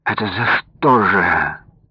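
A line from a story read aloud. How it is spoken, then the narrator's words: Old man's moan. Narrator (Russian): простонал старый Якушев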